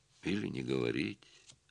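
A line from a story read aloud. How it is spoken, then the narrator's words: Quiet, musing to herself. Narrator (Russian): произнесла она негромко, словно советуясь сама с собой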